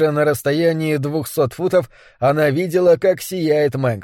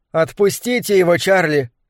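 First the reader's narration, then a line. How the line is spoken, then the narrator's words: Shout. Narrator (Russian): крикнула она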